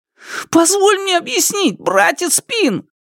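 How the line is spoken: Terrified wail. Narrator (Russian): В ужасе завопил Шунь

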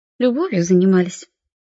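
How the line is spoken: Girl, businesslike question. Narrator (Russian): деловым тоном спросила девочка

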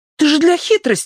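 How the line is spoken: Exclamation. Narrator (Russian): воскликнула Прошка

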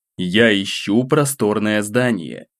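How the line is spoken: Calm reply. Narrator (Russian): спокойно начал отвечать

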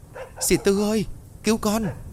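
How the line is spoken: Frightened cry. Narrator (Vietnamese): Hiền sợ hãi kêu lên

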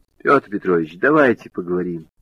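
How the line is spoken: Soft pleading. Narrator (Russian): Женька просительно и мягко сказал

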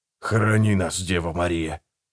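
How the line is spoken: Whisper. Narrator (Russian): прошептал Гегель

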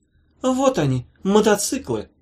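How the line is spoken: Triumphant exclamation. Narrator (Russian): воскликнула с торжеством

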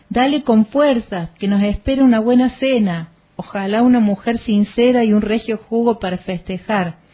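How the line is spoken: Shouted. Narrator (Spanish): gritó

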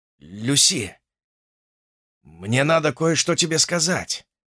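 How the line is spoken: Hoarse. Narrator (Russian): хрипло начал он

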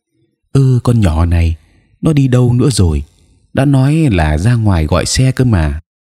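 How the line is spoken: Irritated muttering. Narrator (Vietnamese): Lê lại bực bội lẩm bẩm

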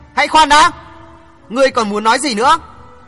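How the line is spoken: Shouting. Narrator (Vietnamese): Phạm Giang hét

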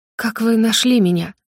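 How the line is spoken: Uncertain whisper. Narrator (Russian): шепчу неуверенно

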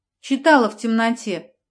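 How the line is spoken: Cheerful explanation. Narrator (Russian): пояснила я весело

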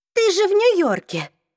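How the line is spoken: Exclaimed. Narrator (Russian): воскликнула Изабель

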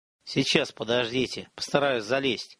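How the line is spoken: Muttered. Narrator (Russian): буркнул Антипов

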